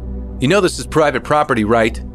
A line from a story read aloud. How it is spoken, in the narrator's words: Again, he shouted